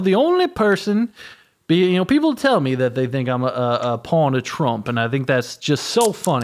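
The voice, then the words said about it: Fake, forced southern accent. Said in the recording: “my southern accent sounds fake and forced”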